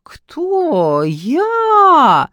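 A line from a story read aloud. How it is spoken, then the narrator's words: Yelled. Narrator (Russian): завопила Алка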